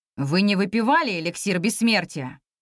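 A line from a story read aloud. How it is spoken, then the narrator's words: Menacing question. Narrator (Russian): грозно спросил нас Ирлан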